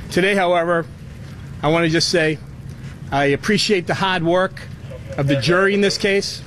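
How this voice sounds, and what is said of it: Boston accent. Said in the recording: “It's the accent ... they really leaned in the Boston accent on that”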